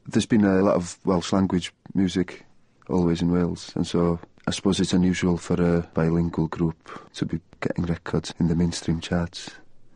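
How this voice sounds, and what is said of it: North Welsh accent. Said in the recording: “I'm from North Wales, so I have a fairly obscure accent. It's not even a stereotypically Welsh accent”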